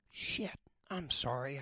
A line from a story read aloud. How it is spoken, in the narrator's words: I said, lowering my voice